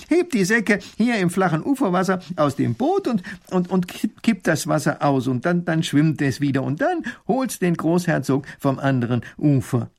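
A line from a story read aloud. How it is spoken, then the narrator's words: Called out. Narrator (German): ruft Professor Pfiffikus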